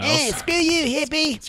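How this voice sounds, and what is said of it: Poor cartoon character voice impression. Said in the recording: “that was the worst Cartman impression.”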